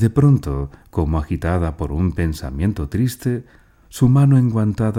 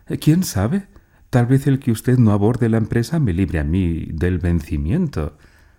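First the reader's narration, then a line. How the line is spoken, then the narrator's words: Kind, laughing. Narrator (Spanish): Rió ella y dijo amable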